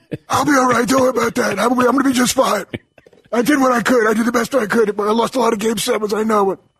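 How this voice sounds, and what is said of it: Doc Rivers impression. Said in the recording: “your Doc Rivers impersonation? ... Doc sounds like that before the season starts ... that postseason voice”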